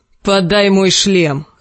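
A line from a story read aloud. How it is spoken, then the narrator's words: Barked. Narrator (Russian): рявкнул Клиган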